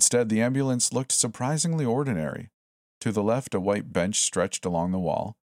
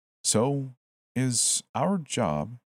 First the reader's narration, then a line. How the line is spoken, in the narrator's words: I said slowly